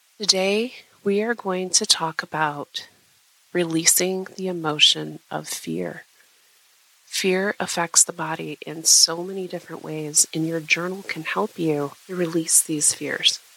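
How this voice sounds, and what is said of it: Sick, under-the-weather voice. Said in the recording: “You can probably hear it in my voice ... that I am a little under the weather.”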